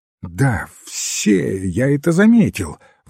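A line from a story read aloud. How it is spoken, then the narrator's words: Young man's exclamation. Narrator (Russian): воскликнул молодой герцог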